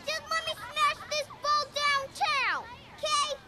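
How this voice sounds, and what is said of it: Sassy child with strong New York accent. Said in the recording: “She's got a huge New York accent. She's street tough, she's sassy, bratty.”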